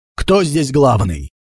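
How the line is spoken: Furious rough question. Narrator (Russian): Дзэнсаку с такой яростью, будто готов убить любого, грубо спросил

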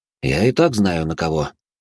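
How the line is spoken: Calm. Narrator (Russian): спокойно ответил я

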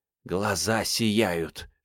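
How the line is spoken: Venomous hissing. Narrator (Russian): шипели ее ядовитые подруги

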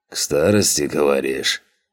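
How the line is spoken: Skeptical snort. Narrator (Russian): хмыкнул рогатый

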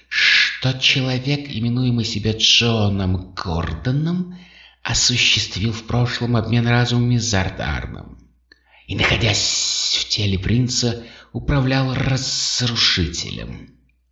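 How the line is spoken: Repulsive whisper. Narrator (Russian): продолжал Врил своим омерзительным шепотом

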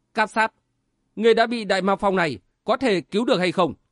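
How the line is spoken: Stern. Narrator (Vietnamese): Sở Vân nghiêm giọng nói

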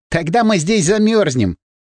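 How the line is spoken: Laughing. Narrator (Russian): засмеялся я

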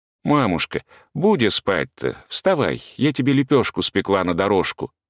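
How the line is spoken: Feigned cheerful, tender, woman. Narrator (Russian): говорила притворно весело и ласково

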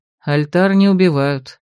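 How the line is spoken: Snorting. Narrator (Russian): хмыкнул Ролан

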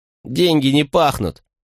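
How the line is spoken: Angry snap. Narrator (Russian): скривившись, зло бросила Риана

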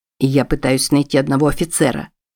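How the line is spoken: Plain. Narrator (Russian): сказал Чарльз

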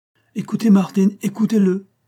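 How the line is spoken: Exclaimed. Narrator (French): s'écria M

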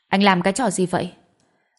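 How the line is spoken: Angry. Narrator (Vietnamese): Cô tức giận nói

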